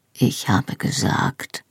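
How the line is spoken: Quiet answer. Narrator (German): antwortete er leise

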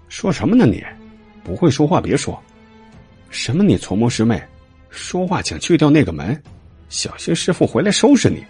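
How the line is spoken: Low voice. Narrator (Chinese): 徐少宁低声道

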